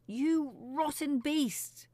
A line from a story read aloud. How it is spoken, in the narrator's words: she screamed at the sky